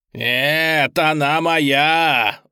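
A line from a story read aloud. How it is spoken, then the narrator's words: Demon wailing. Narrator (Russian): вопил бес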